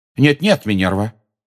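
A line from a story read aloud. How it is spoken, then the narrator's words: Sharp objection. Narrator (Russian): резко возразил Дамблдор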